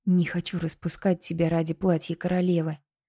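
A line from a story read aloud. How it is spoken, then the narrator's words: Quiet. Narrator (Russian): тихо сказала Кинта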